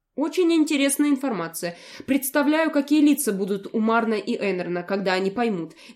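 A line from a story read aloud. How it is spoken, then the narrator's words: Bursting into laughter. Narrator (Russian): не выдержал и рассмеялся Фил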